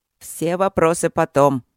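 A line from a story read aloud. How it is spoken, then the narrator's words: Irritated interruption. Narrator (Russian): уже раздраженно прервал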